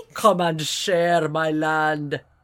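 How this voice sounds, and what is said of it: Jumble of many put-on accents. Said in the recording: “it's every accent. I just did all of them all together.”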